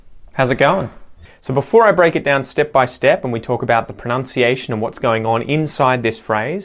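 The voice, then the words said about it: General Australian accent. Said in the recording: “I speak with a general Australian accent.”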